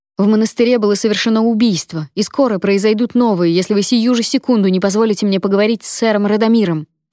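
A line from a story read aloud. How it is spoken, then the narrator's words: Booming voice. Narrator (Russian): прогремела я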